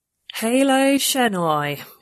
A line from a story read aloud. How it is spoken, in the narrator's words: said flatly